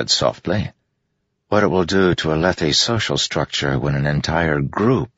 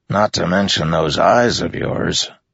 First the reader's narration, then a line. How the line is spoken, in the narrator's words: Teft said with a grunt